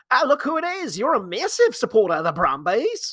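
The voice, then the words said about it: Silly put-on Australian accent. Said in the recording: “my silly Australian accent”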